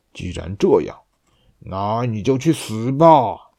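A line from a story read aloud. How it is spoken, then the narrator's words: Roaring. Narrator (Chinese): 公熊吼道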